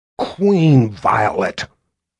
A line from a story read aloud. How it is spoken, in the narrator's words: Violet growled